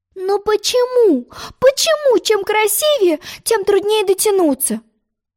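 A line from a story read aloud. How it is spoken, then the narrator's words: Vexed, despairing exclamation. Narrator (Russian): С досадой воскликнула Алиса, отчаявшись сорвать все-все речные лилии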